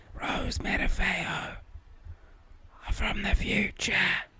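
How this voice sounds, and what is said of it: Whispery, sick-sounding voice. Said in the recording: “whispering or do you have something wrong with your voice? ... still sick”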